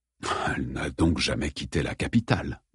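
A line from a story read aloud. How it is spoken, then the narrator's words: Murmured. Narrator (French): murmura-t-il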